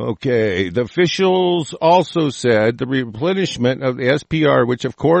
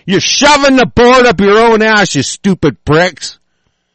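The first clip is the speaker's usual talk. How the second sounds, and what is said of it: Angry yelling. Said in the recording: “I'm yelling.”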